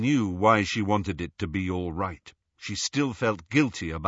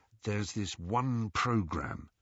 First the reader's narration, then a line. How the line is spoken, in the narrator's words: he told Harry in a low voice